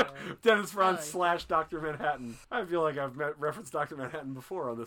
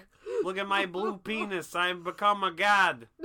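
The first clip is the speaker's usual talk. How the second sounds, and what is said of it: Put-on New York accent. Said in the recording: “I'm Dr. Manhattan, because that's where my accent is from, yeah? ... I'm from New York. This is how we all talk.”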